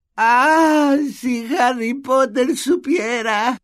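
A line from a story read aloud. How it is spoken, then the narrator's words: Tearful moan. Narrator (Spanish): gimió Dobby mientras le caían más lágrimas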